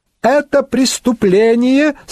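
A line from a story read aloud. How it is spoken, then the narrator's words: Thin young voice. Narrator (Russian): сказал тонким голосом молоденький Генрик Барут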